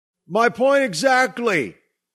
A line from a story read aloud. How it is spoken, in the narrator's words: Doug yelled